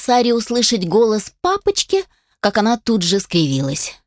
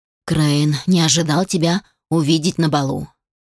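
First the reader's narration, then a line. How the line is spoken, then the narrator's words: Irritated, wry. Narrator (Russian): Алишер раздраженно вздохнул и, натянув кривую улыбку, произнес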